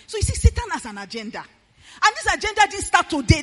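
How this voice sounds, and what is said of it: Loud shouting preacher delivery. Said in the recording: “why I'm shouting ... I was shouting it then, that time.”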